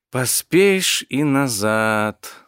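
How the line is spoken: Purring under breath. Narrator (Russian): замурлыкала под нос Виктория

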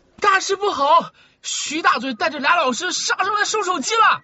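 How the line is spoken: Urgent shout. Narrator (Chinese): 宋思睿踩着铃声冲进来，一进门就叫道

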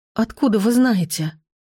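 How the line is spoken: Hoarse, agitated question. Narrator (Russian): спросила я охрипшим от волнения голосом

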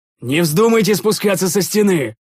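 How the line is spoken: Shouting. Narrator (Russian): закричал я

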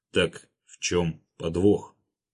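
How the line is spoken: Much calmer. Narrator (Russian): гораздо более спокойно произнес Геннадий Григорьевич

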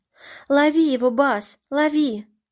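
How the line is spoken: Shouted. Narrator (Russian): закричала она

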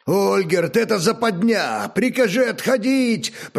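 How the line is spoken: Shouted over battle noise. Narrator (Russian): прокричал сквозь ляск и скрежет битвы Агнияр

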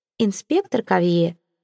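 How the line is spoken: Melodious tone. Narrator (Russian): мелодичным тоном, о наличии которого Сезар у нее и не подозревал, произнесла вдруг Ивейн

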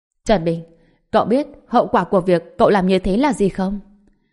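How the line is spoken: Cold shout. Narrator (Vietnamese): Giang Quốc Sương hét lên, trong mắt mang theo sự lạnh lùng

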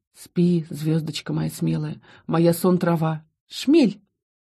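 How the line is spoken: Giggling. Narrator (Russian): хихикнула

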